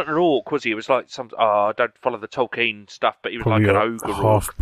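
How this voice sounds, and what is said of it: Usual voice. Nothing is said of it.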